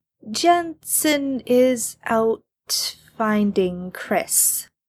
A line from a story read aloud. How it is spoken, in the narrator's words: Chad says slowly